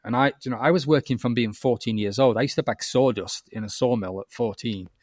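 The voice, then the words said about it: Northern English accent. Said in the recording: “I'm Northern. You might notice that from my accent.”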